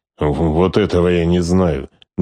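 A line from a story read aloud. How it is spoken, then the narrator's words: Displeased grumble. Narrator (Russian): недовольно проворчал Скорцени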